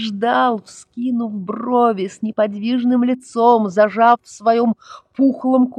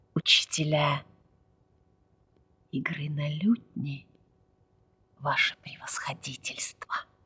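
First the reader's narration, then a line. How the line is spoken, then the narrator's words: Whispered. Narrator (Russian): прошептал Ахмед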